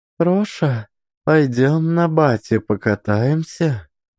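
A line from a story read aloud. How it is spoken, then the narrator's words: Timid request. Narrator (Russian): Робко попросила стоявшая рядом Степанида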